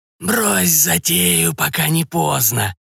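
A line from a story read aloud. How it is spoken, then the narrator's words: Snakelike hiss, veiled. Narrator (Russian): раздалось почти змеиное шипение из-под вуали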